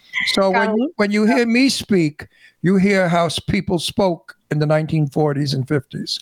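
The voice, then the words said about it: Old-fashioned New York accent. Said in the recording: “I'm a New Yorker, in case you didn't hear the accent... I speak ancient New York. I talk like New Yorkers of... I have an accent of years and years ago”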